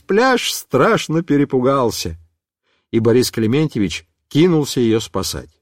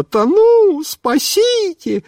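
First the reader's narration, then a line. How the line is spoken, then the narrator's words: Panicked woman's shriek. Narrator (Russian): тетенька стала думать, что она тонет, и она завизжала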